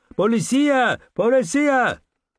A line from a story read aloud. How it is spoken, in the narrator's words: I screamed in my best Spanish accent